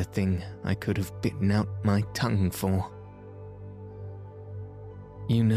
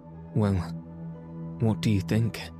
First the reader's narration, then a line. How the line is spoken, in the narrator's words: I asked, feebly